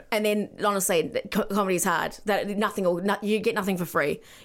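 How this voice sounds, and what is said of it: Speaks with a noticeable accent. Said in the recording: “because I have an accent”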